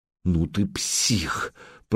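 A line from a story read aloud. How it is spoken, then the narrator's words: Hoarse wheeze. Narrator (Russian): прохрипела Алена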